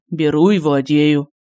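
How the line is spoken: Bored voice. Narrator (Russian): скучным голосом произнес Семен Владимирович

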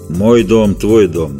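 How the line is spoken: Dry monster reply. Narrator (Russian): ответило чудище столь же сухо

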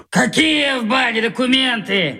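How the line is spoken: Shouted. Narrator (Russian): крикнул

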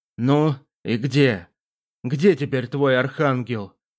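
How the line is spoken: Strained, forced out. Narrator (Russian): Кое-как выдавил Зейл

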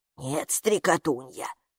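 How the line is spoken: Gatekeeper's whisper. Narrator (Russian): прошептала привратница

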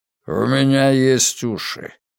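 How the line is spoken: Grumbling. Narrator (Russian): проворчал Ритвенко

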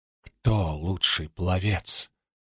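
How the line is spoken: Whisper. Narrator (Russian): прошептала вуаль

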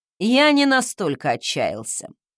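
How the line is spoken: Amused snort. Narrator (Russian): хмыкнул он

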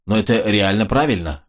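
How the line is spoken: Sighing. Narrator (Russian): вздохнул стоявший рядом с Роджером Мак

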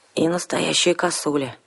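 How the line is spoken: Gloomy agreement. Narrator (Russian): мрачно поддакнула я

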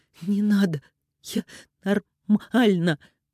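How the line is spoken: Strained. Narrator (Russian): выдавила из себя Алиса

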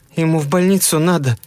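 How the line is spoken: Trembling young female voice. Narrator (Russian): Дрожащим голосом сказала девушка

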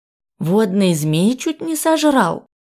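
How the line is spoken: Admiring exclamation. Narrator (Russian): восхищенно воскликнул Иллик

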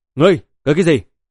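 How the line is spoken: Cold. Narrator (Vietnamese): Kim Quang Dao lạnh lùng thốt

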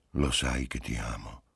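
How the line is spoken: Murmured in her ear. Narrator (Italian): le mormorò all'orecchio

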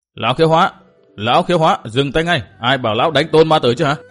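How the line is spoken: Loud angry shout. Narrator (Vietnamese): tiếng Hầu Nhị quát to

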